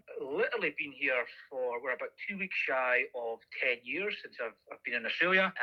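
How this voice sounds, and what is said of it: Non-Australian accent. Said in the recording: “Going from my accent, I'm obviously not originally Australian.”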